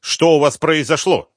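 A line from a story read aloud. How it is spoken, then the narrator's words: Sharp question. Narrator (Russian): резко спросил приехавший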